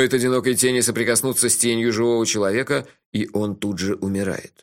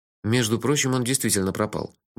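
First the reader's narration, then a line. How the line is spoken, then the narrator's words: Mutter. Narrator (Russian): буркнул я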